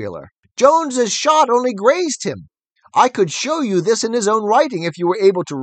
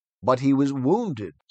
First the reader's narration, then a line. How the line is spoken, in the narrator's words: said Boxer